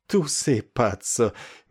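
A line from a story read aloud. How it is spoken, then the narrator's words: Sweet, laughing. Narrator (Russian): мило рассмеявшись, проговорила она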